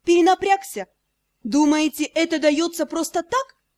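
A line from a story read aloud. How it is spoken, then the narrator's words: Snapping retort. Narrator (Russian): Огрызнулась я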